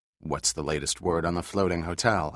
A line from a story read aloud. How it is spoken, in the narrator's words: asked Harley